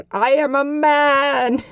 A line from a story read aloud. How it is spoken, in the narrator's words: Perrin randomly yelled out